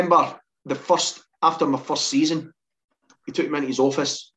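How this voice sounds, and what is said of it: Usual voice. Nothing is said of it.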